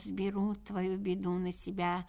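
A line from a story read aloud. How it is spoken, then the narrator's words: Solemn, repeated three times. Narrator (Russian): Кот зажмурился и торжественно три раза произнес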